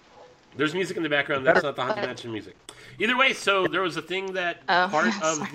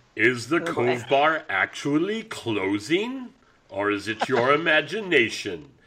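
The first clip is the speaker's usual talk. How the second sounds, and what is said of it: Spooky haunted-house narrator voice. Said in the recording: “in my best Haunted Mansion voice.”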